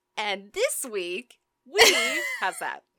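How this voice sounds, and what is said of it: Confident podcast host tone. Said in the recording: “a tone of voice that says, I'm a podcast host, and I'm confident about what I've prepared for you tonight”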